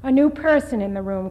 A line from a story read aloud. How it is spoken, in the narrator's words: cried Olga Vasilievna